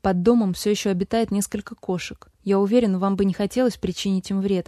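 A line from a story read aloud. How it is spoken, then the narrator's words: Plain. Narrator (Russian): ответил Лукас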